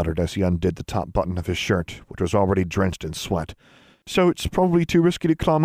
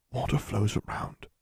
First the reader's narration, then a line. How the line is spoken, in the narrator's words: he whispered to himself